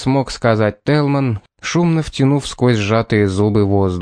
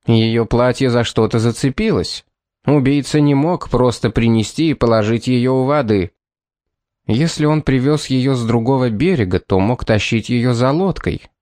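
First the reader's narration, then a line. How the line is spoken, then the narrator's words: Plain. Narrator (Russian): ответил Пит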